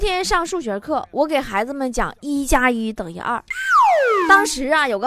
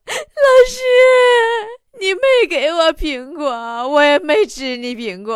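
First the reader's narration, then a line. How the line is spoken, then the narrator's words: Child wailing. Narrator (Chinese): 孩子哇一声就哭了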